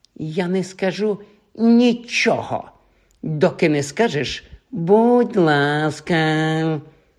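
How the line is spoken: Bored drawl. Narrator (Ukrainian): Простягнув Півз своїм занудним голосом

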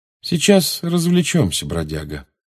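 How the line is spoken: Calm. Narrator (Russian): спокойно сказал Джеймс

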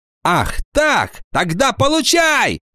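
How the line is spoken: Furious shout. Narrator (Russian): яростно закричала она

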